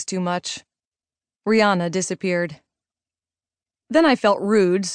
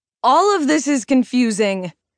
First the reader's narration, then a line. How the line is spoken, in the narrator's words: I yelled